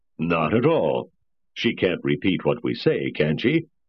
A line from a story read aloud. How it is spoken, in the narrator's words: He laughed at his own joke